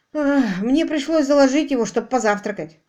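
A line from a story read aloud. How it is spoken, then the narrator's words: Impatient snort. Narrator (Russian): Квиллер нетерпеливо хмыкнул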